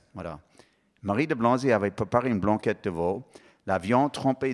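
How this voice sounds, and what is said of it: Heavier foreign accent while reading aloud. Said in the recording (French): “mon accent est plus lourd quand je lis ... J'ai du mal à prononcer”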